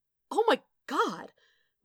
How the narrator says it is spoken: Wade gasped

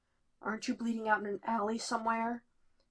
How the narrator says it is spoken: He rasps

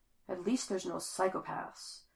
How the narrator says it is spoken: she mutters to herself

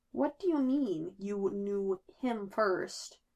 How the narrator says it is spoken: Bruce asks slowly

